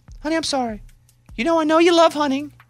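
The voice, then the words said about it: Strained imitation of a woman's voice. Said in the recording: “I'll be the girl now... I can't do this. My voice is going to go away.”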